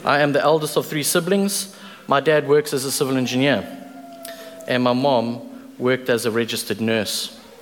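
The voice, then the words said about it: South African accent. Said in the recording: “born and bred in South Africa, if that wasn't already obvious by my accent”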